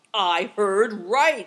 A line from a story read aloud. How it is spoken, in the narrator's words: he thundered